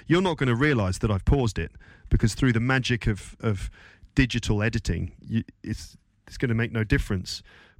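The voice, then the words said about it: Congested, slightly unclear voice. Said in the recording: “I've just been suffering from hard work and a bad cold ... Hopefully when I come back, my voice is going to sound a little bit clearer”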